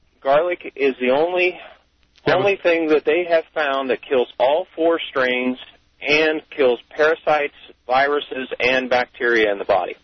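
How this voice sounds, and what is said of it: Voice sounds like a cold. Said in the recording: “I have a little bit of a cold.”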